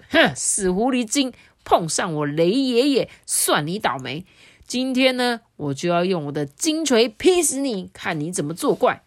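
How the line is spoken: Fierce roar. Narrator (Chinese): 他就狠狠的吼着

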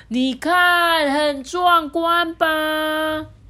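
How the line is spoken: Loud, booming. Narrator (Chinese): 飞普啊，拉开嗓门，大声的说

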